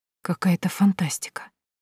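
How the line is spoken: Whisper. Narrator (Russian): прошептала я

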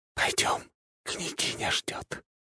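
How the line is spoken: Tender smiling whisper. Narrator (Russian): Ослепительно улыбаясь, девушка нежно прошептала на ухо

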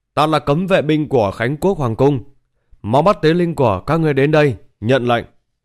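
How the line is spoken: Loud shout. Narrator (Vietnamese): Lớn tiếng hét lên

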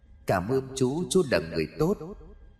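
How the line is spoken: Soft child's voice. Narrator (Vietnamese): giọng nói khẽ vang lên

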